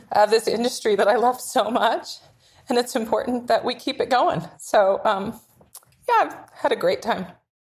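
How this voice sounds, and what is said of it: Choked up, emotional voice. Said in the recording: “I'm going to get choked up.”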